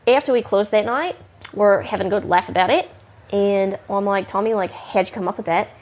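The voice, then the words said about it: New Zealand and Northern California accent. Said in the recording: “has a interesting accent. Sort of a Kiwi Northern California hybrid.”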